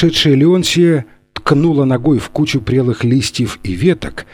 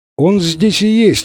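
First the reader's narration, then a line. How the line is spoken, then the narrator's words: Exclaimed. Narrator (Russian): воскликнул Фрэнсис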